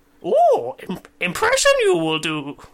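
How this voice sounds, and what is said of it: Yoda character voice impression. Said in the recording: “That was my Yoda impression.”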